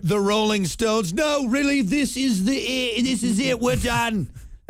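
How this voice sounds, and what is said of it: Put-on accent. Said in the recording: “That was my accent.”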